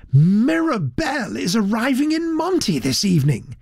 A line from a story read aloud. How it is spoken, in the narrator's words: he confided excitedly